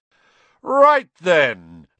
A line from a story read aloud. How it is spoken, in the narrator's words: Lockhart said loudly